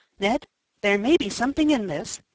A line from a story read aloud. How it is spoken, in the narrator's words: said Tom, in an excited whisper